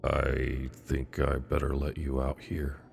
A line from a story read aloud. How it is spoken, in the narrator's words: he quietly said